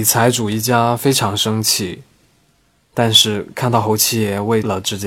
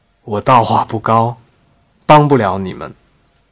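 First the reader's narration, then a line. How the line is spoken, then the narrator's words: Shouting. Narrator (Chinese): 侯七爷喊道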